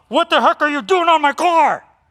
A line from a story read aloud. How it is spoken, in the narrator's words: someone yell